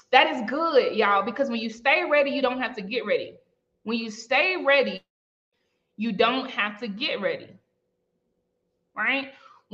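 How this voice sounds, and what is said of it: Strong twangy accent. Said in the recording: “a lot of people in the chat don't understand my twang. And whenever I start twanging like this”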